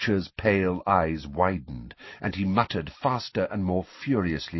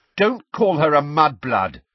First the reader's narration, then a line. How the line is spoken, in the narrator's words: said Ron and Ginny together, very angrily